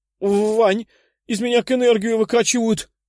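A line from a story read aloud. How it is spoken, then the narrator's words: Exclamation. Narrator (Russian): воскликнула Катя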